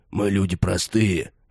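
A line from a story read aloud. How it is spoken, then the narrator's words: Grumbling old man. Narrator (Russian): ворчал дядя Лес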